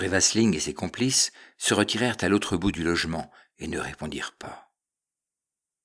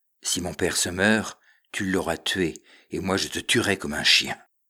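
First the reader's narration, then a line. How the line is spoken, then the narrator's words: Dark, somber voice. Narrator (French): dit Louis Cornbutte d'une voix sombre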